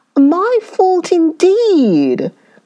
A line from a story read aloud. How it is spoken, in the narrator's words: cried the wife